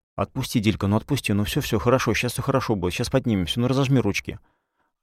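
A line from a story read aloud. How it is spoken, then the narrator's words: Fast mumbling. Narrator (Russian): Я быстро забормотал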